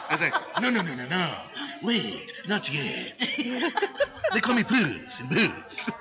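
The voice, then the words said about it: Imitates another person's voice. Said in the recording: “I did my Antonio Banderas voice. ... That was my Antonio Banderas.”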